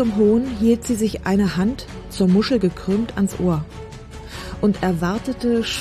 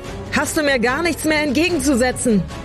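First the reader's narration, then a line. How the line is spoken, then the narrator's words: Shouting into the wind. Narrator (German): schrie sie ... in den Wind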